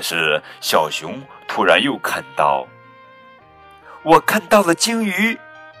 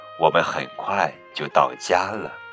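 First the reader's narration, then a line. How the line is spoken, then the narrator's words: Gentle mother bear. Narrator (Chinese): 熊妈妈温柔地说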